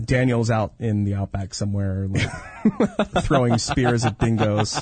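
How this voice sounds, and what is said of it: Usual voice. Nothing is said of it.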